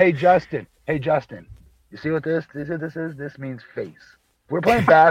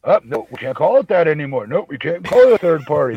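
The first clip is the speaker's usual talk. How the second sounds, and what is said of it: Imitates another person's voice. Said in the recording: “That was a very good Justin LaBar... impression”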